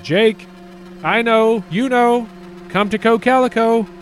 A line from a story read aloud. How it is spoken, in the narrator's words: called out to him